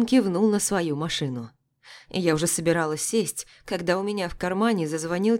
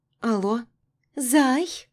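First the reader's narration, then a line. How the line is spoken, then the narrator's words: Lazy, sultry voice. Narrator (Russian): Голос Маруськи звучал лениво и эротично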